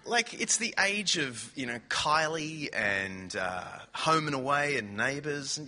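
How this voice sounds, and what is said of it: Australian accent. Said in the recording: “You might love Australians ... people might take a few minutes to just get used to your accent ... You understand this accent, don't you?”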